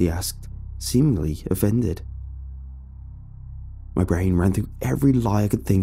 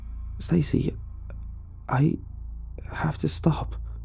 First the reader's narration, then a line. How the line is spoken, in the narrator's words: I stuttered